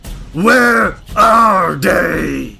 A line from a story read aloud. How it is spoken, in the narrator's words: He roars